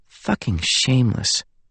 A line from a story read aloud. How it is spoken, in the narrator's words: one girl mutter